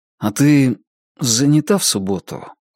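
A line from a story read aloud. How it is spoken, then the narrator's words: Unexpectedly timid question. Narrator (Russian): спросил Джонни неожиданно робко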